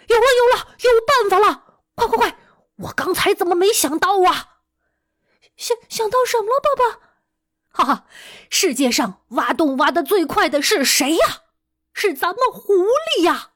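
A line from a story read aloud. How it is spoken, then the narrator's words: Loud excited father. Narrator (Chinese): 狐狸爸爸一边大声说着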